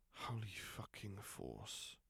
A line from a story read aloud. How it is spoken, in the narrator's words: he muttered quietly